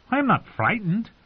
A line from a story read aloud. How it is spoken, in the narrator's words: Edric said indignantly